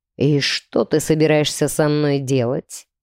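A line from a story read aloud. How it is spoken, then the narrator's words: Low purr near ear. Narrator (Russian): промурлыкал низкий голос у меня над ухом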